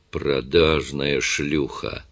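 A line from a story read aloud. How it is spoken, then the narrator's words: Barely audible. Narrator (Russian): Он говорил так тихо, что она едва разбирала слова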